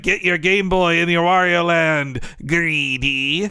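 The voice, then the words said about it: Wario-style cartoon villain voice. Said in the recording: “It's a really good voice impression.”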